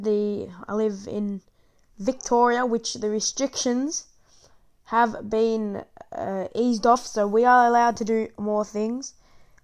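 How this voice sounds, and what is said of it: Australian accent. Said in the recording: “I'm from Australia, as you can probably tell by my accent”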